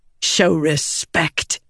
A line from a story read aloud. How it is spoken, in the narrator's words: Venli snapped